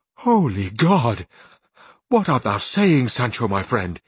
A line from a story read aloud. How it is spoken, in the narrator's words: exclaimed Don Quixote